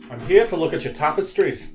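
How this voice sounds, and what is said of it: Deliberately bad put-on accent. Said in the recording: “It's about as bad an accent as Harrison Ford did.”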